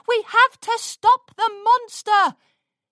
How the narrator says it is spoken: shouted from the seats

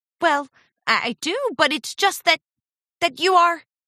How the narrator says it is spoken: Charity stammered

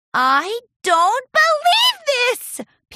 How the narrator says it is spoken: Pinkie screamed with joy

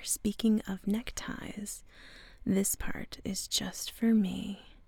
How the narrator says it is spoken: He leaned in close and whispered into her ear

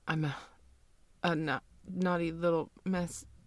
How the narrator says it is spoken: You shakily stammer out

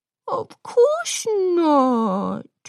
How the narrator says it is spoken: Sunset Shimmer said, her voice dripping with sugary sweetness

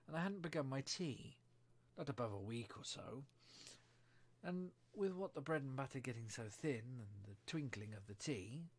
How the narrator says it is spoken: the Hatter began in a trembling voice

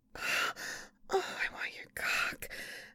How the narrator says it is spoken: I whispered

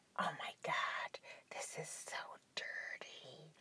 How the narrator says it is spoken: She sighed and muttered under her breath

